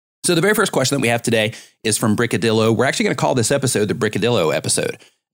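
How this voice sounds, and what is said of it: Voice not quite normal, recovering. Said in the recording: “my voice went out ... just be patient with my voice because it's not like it normally is, but it's getting there. It's pretty close.”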